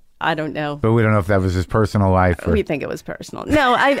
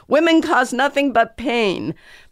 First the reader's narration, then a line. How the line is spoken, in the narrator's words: screaming